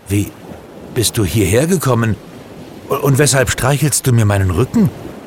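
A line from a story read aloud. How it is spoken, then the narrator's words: Stammering in surprise. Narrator (German): stammelte Gerd völlig überrascht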